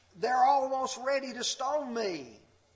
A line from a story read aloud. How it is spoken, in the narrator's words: Moses cried out to the Lord